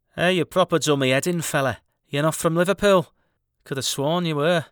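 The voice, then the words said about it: Put-on Scouse Liverpool accent. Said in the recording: “That's a pretty impressive Scouse accent.”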